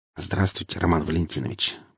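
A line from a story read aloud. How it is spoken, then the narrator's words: Barely audible. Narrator (Russian): произнес он едва слышно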